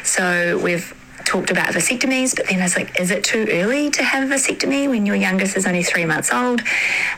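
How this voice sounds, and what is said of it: New Zealand accent. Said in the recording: “I love me a Kiwi accent.”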